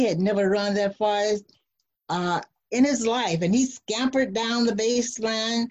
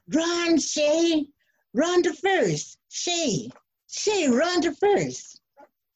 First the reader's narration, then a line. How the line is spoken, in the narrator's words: everyone from the stands and both teams started yelling